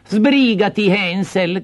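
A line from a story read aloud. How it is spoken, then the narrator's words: Stepmother's shout. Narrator (Italian): gridò la matrigna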